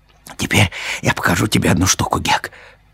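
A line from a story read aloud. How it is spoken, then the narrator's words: Whispered. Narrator (Russian): шепнул Том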